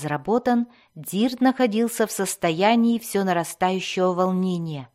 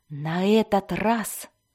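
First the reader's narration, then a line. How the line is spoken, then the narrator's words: Loud whisper. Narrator (Russian): громким шепотом обратился он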